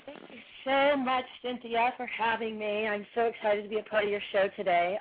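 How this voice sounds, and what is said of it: Raspy, hoarse voice. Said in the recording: “I, too, have had laryngitis since... I have lost my voice. You can hear it. It's still a little raspy.”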